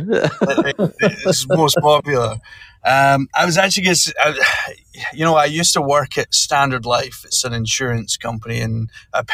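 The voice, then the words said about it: Scottish accent. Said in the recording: “I'm pretty sure, is Scottish”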